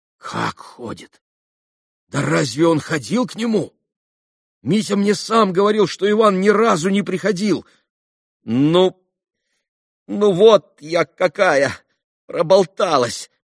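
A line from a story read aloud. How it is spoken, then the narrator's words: Embarrassed exclamation. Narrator (Russian): воскликнула Грушенька в смущении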